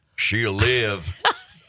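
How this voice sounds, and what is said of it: Put-on Southern accent. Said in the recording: “I had to do a Southern accent.”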